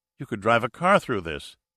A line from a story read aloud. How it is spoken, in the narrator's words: Gamay exclaimed